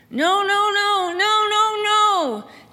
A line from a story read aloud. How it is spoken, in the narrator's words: Jesse started screaming